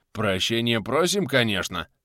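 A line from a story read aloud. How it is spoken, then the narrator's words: Railwayman's muttering. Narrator (Russian): забормотал железнодорожный усач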